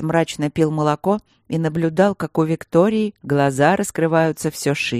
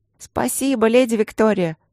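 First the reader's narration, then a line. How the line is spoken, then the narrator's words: Girls squeaking. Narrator (Russian): запищали девочки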